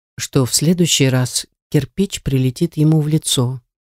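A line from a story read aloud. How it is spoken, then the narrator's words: Eerily calm reply. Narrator (Russian): Ответил он до жути спокойно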